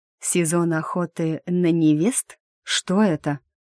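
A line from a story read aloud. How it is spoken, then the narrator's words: Forced even tone. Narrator (Russian): как можно более ровным тоном спросила я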